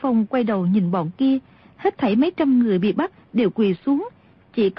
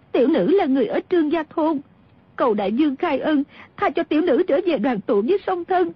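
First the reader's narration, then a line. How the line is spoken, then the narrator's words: Girl's tearful pleading. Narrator (Vietnamese): Thiếu nữ kia quỳ xuống khóc lóc đáp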